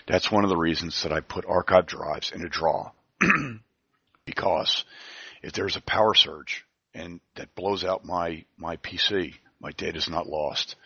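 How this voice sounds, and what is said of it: Voice going hoarse. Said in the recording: “I'm going hoarse.”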